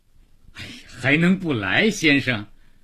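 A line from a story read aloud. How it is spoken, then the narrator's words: Joyless, mirthless. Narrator (Chinese): 似乎连怎么笑都忘了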